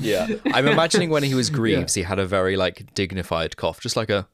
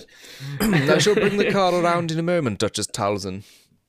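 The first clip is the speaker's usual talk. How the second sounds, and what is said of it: Posh, well-spoken character voice. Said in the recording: “Do you reckon he was posh? Do you reckon he had a lovely, well-spoken accent? ... he had to be posh. There was no way wasn't posh.”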